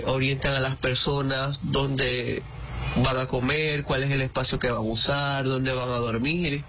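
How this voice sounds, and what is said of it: Venezuelan Maracaibo (maracucho) accent. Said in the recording (Spanish): “como maracucho que soy, el acento se enmarca mucho más ... nuestro acento maracucho”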